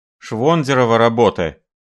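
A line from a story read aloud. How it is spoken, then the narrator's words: Shouting. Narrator (Russian): кричал Филипп Филиппович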